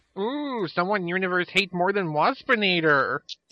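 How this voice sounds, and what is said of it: Fairly good Waspinator impression. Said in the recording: “That's actually a fairly good impression.”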